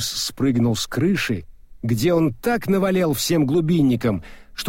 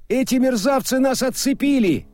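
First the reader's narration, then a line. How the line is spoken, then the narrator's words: Shouted reply. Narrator (Russian): крикнул в ответ Мокриц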